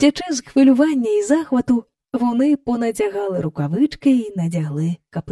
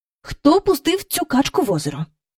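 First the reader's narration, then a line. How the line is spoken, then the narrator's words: Familiar angry voice. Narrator (Ukrainian): спитала вона таким знайомим їм сердитим голосом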